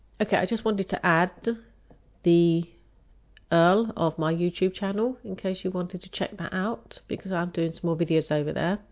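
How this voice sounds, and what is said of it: Croaky, hoarse voice. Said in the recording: “My voice is getting a bit croaky now. I have a bit of a cold”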